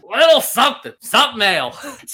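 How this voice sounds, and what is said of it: Imitates another person's voice. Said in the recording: “if you said it like Gilbert Gottfried ... That might be your best impression.”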